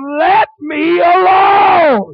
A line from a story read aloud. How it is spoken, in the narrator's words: That devil screamed